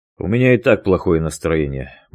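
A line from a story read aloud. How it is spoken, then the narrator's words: Gloomy reply. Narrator (Russian): мрачно ответил Дронго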